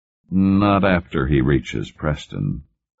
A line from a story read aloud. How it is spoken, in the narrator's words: Cartwright said gloomily